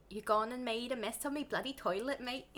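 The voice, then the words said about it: Put-on Cockney-style British accent. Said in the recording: “You should do it in a Cockney accent. ... Cockney accent. ... Oh, that was Scottish.”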